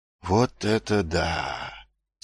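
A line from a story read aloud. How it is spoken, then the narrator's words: Quiet speech. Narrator (Russian): тихо произнес Муть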